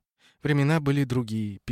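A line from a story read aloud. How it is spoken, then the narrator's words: Sad agreement. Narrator (Russian): печально согласилась Ося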